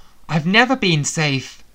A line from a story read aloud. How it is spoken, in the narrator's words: Sebastian cried out from behind the bulk of dragon between us